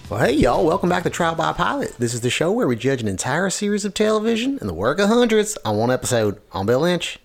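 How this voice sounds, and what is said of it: Put-on Southern American accent. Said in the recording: “I figured I would just do that southern accent that Jason Sudeikis always does”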